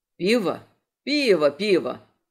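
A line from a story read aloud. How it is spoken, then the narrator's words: Foxlike chuckle. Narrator (Russian): хохотнул рыжий точно лисица Анджей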